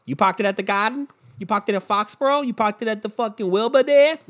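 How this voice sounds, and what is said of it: Put-on Boston accent. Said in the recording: “they're fucking talking in that Boston accent.”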